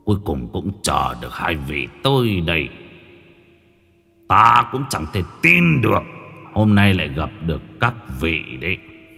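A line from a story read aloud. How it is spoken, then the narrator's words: Deep booming voice. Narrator (Vietnamese): giọng nói ồm ồm lại vang lên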